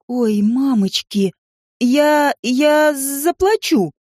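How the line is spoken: Stammering in fear. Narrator (Russian): проговорила, заикаясь от страха

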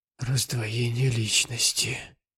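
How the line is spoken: Whisper. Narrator (Russian): прошептал он

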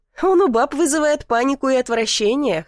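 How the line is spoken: Chuckling. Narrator (Russian): хохотнул Дмитрий

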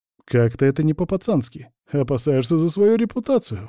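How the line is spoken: Scoffing snort. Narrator (Russian): хмыкнул Витёк

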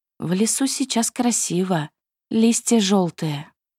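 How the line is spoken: Quiet but firm. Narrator (Russian): Кира, моя молчаливая и колючая принцесса, тихо, но на удивление твердо произнесла

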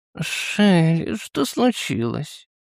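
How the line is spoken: Mumbled. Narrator (Russian): пробормотала она

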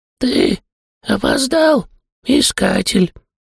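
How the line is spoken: Muffled, ogre. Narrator (Russian): Снова глухо проговорил огр

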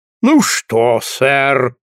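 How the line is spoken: Resonant deep bass. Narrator (Russian): сказал Пепс звучным басистым голосом

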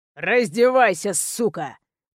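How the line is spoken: Impatient snarl. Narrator (Russian): прорычал бандит, устав ждать от меня послушания

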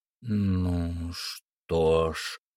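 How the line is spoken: Muttering. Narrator (Russian): пробормотал мистер Карлайл

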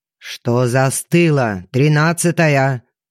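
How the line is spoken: Barked order. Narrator (Russian): гаркнул мой непосредственный начальник

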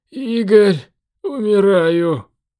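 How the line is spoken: Hoarse wheeze. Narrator (Russian): просипел Дэн

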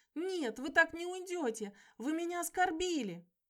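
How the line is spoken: Tearful shouting. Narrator (Russian): Коля шел за уходящим и плачущим голосом кричал

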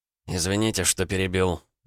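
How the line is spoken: Grumbling. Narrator (Russian): проворчал Бергер

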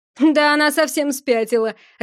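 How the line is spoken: Laughing. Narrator (Russian): рассмеялся торговец

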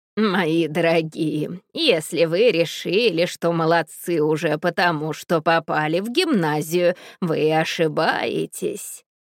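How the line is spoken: Dangerous hoarse voice. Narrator (Russian): произносит она опасным хриплым голосом

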